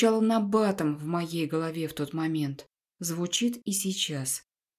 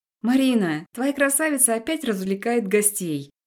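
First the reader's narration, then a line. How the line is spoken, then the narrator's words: Laughing, maid. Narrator (Russian): рассмеялась одна из горничных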